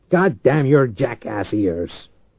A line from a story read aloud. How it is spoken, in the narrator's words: Reich growled